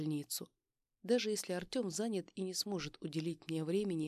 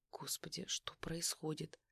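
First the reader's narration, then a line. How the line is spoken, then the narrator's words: Anxious whisper to herself. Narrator (Russian): прошептала я сама себе, чувствуя, как ноги становятся ватными от переживания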